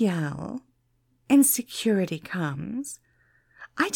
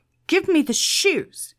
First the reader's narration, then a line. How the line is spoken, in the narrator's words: he barked